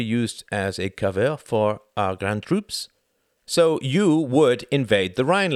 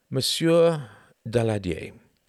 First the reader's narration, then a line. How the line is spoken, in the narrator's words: he said slowly